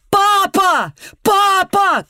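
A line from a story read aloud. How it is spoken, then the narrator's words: Shouting. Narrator (Russian): кричал Бранд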